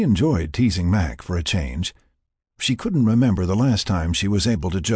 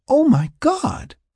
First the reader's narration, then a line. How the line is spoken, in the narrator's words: she exclaimed